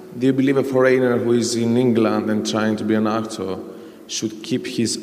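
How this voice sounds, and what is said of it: Foreign accent. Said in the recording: “You're never going to lose your accent. That's you, isn't it?”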